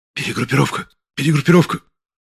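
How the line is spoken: Group whispering. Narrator (Russian): зашептали члены бригады

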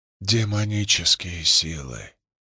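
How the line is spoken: Barely audible whisper. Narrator (Russian): прошептал кто-то едва слышно

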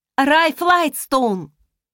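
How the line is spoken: Shouting after someone. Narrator (Russian): крикнула я ему вслед

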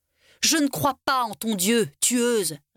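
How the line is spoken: Creature sneering. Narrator (French): ricana la créature

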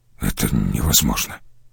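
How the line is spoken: Quiet, dejected. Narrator (Russian): Он весь как-то сник и тихо произнес

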